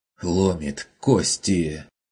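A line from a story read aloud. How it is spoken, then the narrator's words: Painful wheezing objection. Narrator (Russian): с болезненным хрипом возразил Хагнер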